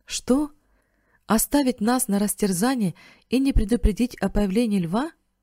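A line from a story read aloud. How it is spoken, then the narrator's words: Exclamation. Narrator (Russian): воскликнул Бен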